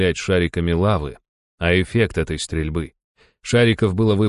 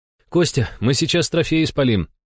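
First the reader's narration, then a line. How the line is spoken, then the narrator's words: Exhaled words. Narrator (Russian): выдохнул Иван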